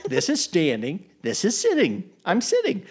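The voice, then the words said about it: Cartoon vegetable character voice impression. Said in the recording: “this is not an episode of Veggie Tales with Bob the Tomato ... that is a really good impression”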